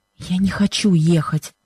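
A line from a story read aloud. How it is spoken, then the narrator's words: Pained whisper. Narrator (Russian): шепнула она Бену с выражением страдания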